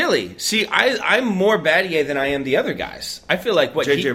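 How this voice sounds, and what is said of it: Usual voice. Nothing is said of it.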